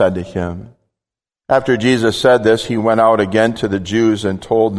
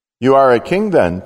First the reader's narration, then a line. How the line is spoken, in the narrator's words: asked